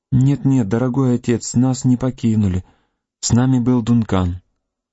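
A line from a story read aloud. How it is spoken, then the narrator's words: Soft gentle babble. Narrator (Russian): Алиса пролепетала своим нежным голоском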